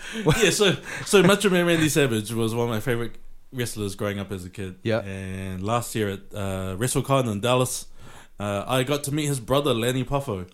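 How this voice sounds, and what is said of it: New Zealand accent. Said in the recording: “because of my accent. I said from New Zealand.”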